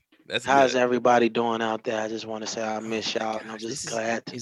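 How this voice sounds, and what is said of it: Weird put-on sexy voice. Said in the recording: “sexy voice ... That's the weirdest voice I think I've ever heard”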